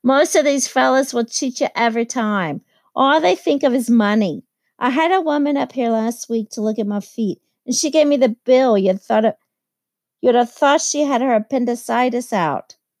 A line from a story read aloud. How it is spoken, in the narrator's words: she told her sister in a high, mincing shout